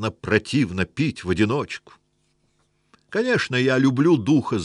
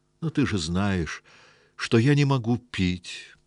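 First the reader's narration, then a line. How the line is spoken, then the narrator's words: Sigh. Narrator (Russian): вздохнул дух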